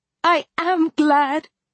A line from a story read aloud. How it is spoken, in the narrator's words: I exclaimed